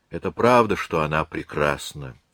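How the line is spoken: Sighing. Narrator (Russian): вздохнул он

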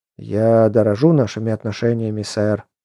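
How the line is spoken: Sighing. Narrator (Russian): вздохнул я

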